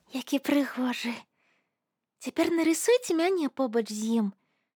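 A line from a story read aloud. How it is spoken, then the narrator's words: Pleased whisper. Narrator (Belarusian): Яна задаволілася вырадкам і прашаптала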